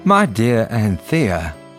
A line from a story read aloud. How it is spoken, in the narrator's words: he said